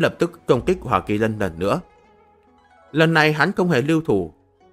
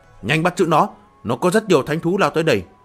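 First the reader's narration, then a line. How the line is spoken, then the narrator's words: Sharp shout. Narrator (Vietnamese): Thần vương đỉnh phong Huyền Minh hắn quát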